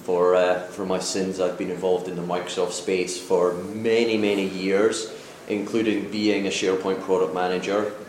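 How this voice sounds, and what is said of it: Scottish accent. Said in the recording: “my funny accent ... originally from Scotland”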